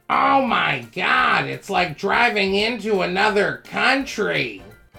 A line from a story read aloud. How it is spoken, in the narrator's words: my grandmother ... very loudly proclaimed